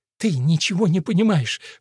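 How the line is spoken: Forced out through sobs. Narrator (Russian): выдавила Аннет сквозь всхлипывание

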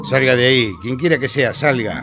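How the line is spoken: Shouting with clenched fists. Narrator (Spanish): gritó Franco con los puños apretados

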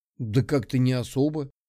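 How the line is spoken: Confused reply. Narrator (Russian): растерянно ответил

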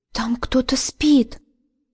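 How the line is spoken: Whisper. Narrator (Russian): прошептала

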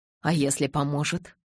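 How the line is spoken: Whispered. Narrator (Russian): шепнул он

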